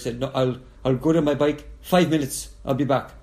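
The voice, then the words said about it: Poor attempt at Dutch accent. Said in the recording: “And that sounded Arabic. I'm sorry. ... That was not a good Dutch accent.”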